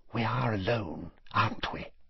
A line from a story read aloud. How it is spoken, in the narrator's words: Narcissa asked quietly